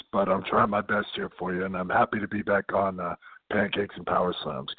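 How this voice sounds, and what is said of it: Strained, mostly lost voice. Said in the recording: “I took a bad kick to the throat. So if you have any trouble understanding me, I basically lost my voice.”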